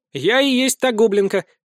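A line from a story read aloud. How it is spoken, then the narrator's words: Snide declaration. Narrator (Russian): ехидно заявила она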